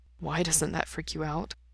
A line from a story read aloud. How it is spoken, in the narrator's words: Mikey asks softly